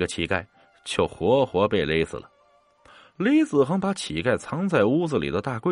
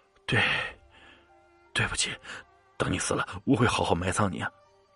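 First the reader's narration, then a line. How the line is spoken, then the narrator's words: Trembling, stammering. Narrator (Chinese): 雷子恒一边抖一边打着哆嗦，结结巴巴的说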